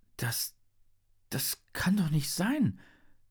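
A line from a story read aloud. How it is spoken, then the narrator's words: Stammering. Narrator (German): stammelt Henry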